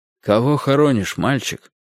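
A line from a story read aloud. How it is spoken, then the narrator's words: Quiet elderly man asking. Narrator (Russian): тихо спросил меня пожилой человек в папахе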